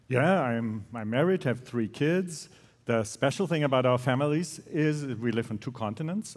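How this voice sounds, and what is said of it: Speaks with a noticeable accent. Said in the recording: “the cool accent”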